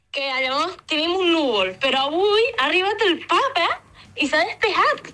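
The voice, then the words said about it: Lleida Catalan with Canary accent. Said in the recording (Catalan): “l'accent canari català... lleidatà, canari lleidatà... l'accent de la meva cosina... parla català lleidatà amb accent de Canàries”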